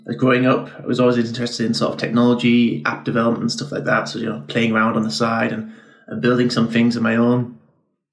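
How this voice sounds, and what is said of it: Northern English accent. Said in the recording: “I was raised in Northern England, as you might have heard from my accent”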